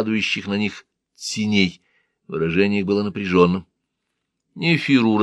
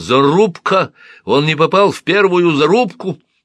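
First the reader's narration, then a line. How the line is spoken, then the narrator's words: Unintelligible yelling. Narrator (Russian): Бениев вопил что-то неразборчивое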